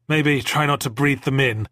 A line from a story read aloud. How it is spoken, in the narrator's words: I said, panting